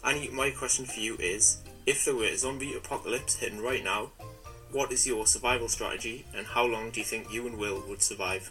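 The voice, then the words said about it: Authentic Northumberland English accent. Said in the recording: “what a gorgeous accent ... that is what a Northumberland accent is actually like ... This is an authentic Northumberland accent.”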